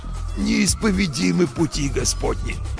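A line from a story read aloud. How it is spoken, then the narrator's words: Hoarse wheeze in pain. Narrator (Russian): Просипел я, морщась от боли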